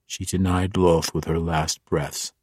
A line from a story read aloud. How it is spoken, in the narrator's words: he said grimly